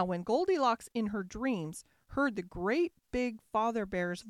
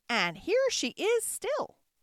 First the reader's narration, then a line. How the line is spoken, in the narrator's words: squeaked the baby bear joyfully